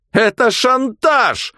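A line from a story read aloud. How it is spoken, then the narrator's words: Yell. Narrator (Russian): заорал он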